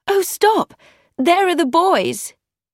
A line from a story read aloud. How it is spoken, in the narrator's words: Emma cried